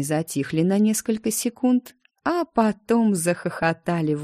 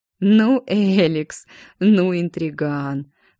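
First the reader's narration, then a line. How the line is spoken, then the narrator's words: Forced out through laughter. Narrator (Russian): выдавил сквозь смех Адриан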